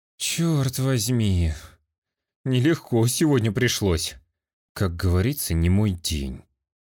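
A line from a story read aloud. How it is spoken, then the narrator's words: Sighing. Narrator (Russian): Вздохнул Субару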